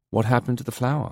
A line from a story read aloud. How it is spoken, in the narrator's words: I asked gently, not wanting to break the spell